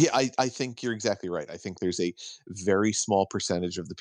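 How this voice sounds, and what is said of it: Usual voice. Nothing is said of it.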